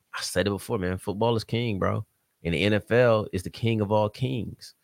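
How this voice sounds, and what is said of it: Country twang accent. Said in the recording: “accent is trying to jump out lately on the show ... I sound like I got a real country twang there”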